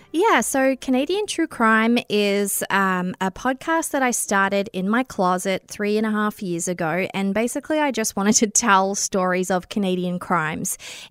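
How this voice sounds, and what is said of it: Australian accent. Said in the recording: “I do have an Australian accent ... I have an Australian accent.”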